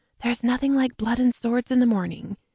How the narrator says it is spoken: murmured

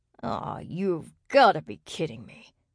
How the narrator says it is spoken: Xander snarled

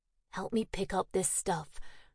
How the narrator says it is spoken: she said calmly

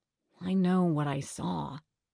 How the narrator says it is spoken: Howie said slowly

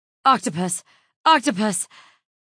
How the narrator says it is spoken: gasp

